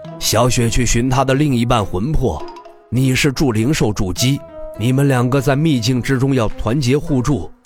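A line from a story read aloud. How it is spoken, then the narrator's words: Laughing. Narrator (Chinese): 李长风笑道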